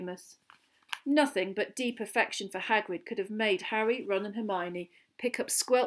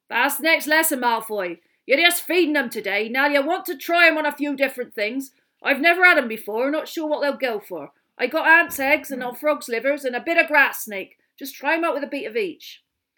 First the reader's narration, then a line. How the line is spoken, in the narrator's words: he said roughly